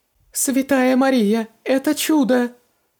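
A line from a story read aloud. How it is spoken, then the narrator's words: Sobbing. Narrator (Russian): разрыдалась жена Алика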